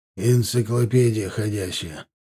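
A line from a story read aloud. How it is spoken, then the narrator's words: Grumbling. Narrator (Russian): проворчал Милар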